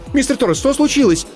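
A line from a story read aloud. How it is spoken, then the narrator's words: Sharp interrupting cry. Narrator (Russian): скрикнула Аиша, перебивая обеспокоенный голос Владимира из динамика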